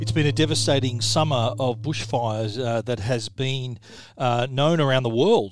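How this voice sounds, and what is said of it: Speaker's own regional accent. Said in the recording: “would hear my accent”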